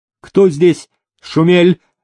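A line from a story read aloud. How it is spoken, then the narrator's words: Sharp-voiced shout. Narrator (Russian): резким голосом прокричал великий князь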